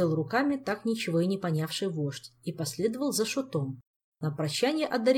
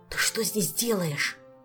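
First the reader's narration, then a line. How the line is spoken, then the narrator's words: Angry whisper. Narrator (Russian): сердитым шепотом вопросил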